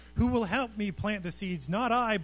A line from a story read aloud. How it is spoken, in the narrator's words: barked the lazy dog